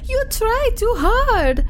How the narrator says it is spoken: she exclaimed

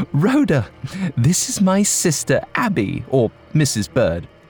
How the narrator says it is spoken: Amelia laughed and said

